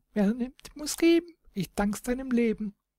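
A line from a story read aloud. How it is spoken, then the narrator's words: Woodpecker's chirp. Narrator (German): der Specht piepste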